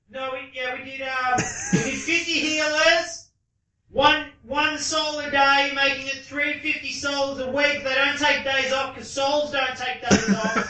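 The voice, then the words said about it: Yelling from a distance. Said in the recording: “I'm yelling ... You can stop yelling now ... what was I yelling from the toilet?”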